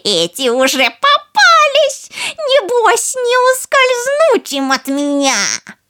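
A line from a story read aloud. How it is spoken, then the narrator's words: Malicious mocking chuckle. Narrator (Russian): она уже злобно посмеивалась и говорила насмешливо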